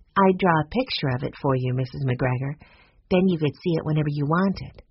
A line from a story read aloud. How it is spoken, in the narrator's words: Violet said in her gentle voice